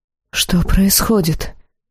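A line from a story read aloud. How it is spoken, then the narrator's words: Whisper. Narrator (Russian): прошептала Хиарин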